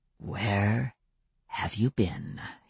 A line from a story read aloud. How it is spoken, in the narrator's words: He asked in a softly menacing voice